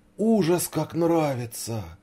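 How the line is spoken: Exclaimed. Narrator (Russian): воскликнул Сашка

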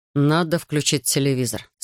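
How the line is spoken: Plain. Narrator (Russian): сказал Дэймон

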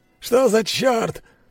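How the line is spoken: Shouting. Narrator (Russian): прокричал Боря

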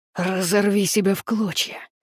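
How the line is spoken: Telepathic growl. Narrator (Russian): прорычал в его голове

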